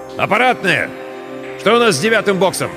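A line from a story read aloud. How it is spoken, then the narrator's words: Shouting. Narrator (Russian): закричал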